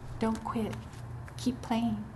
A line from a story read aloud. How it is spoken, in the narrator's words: he whispered in his ear